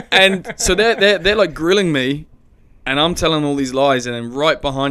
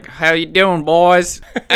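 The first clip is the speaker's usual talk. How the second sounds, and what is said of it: Bad put-on American accent. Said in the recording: “a really bad American accent”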